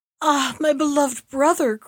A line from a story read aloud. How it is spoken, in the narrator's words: cried in horror